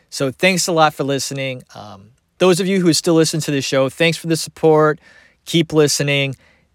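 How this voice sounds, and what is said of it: Strained, failing voice. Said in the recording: “You can hear it. My voice is going.”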